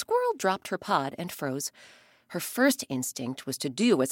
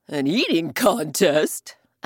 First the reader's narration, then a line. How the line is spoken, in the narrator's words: Elephant roared with laughter